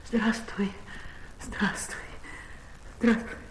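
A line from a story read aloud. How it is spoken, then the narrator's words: Quiet, laughing, at a loss. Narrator (Russian): засмеялась, часто мигая глазами, и, не находя слов, тихо говорила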